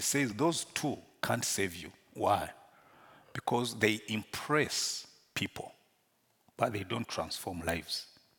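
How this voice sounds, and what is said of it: Non-British accented English. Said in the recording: “Though I speak English with an accent, it's by choice ... people who will hear you will know you are not from UK”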